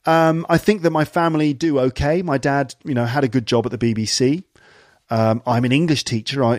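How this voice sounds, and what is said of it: Clear received pronunciation English accent. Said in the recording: “I do speak received pronunciation. I do speak quite clearly. I don't have a strong regional accent.”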